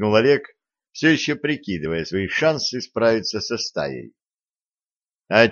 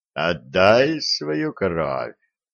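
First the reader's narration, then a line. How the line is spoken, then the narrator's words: Faint drowsy bass demand. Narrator (Russian): еще раз потребовал бас, но отчего-то чуть слышно, будто засыпая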